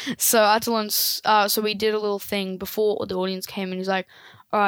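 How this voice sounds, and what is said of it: Usual voice. Nothing is said of it.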